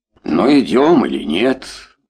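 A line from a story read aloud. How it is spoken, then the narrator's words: Rude question. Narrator (Russian): довольно грубо спросила женщина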